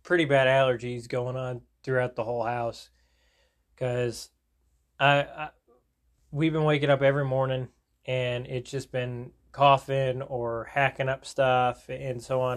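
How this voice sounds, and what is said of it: Congested, strained, breathy voice. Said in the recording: “as you can kind of tell, my voice is kind of like in and out, and I'm having to breathe a little bit in more”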